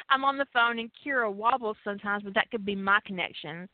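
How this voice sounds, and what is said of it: Southern American accent. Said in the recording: “I am Southern, and I do I do have a little uh thing going on, you know, a little accent thing”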